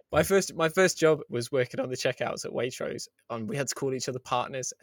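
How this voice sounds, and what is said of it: Middle-class English accent. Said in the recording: “I'm going to be really middle class here. Of course I am, in case you couldn't tell from my voice.”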